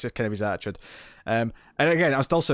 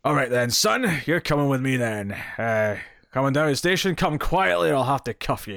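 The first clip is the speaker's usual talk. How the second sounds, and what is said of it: Gruff policeman voice, Scottish accent. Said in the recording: “sound Scottish. I'm doing kind of the gruff version of his voice, but with my own accent, because I can't do the English accent.”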